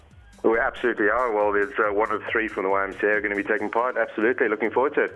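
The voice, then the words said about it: South African accent. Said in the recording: “with that accent, you don't sound like you're from this neck of the woods ... I'm from Cape Town in South Africa.”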